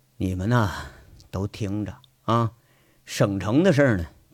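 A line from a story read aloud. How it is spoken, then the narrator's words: Deep, low voice. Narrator (Chinese): 他沉声说了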